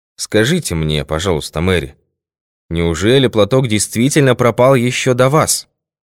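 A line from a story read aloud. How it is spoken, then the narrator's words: Sharp, imposing tone. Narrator (Russian): Он сказал это резко и внушительно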